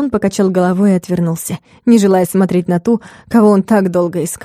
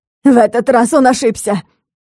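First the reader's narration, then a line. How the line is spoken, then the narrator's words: Trembling shout. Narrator (Russian): Дрогнувшим голосом выкрикнула Аделаида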